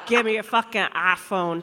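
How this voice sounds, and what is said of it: Put-on Birmingham accent. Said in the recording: “that's a Birmingham accent.”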